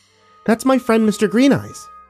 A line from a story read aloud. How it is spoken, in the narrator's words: Sam exclaimed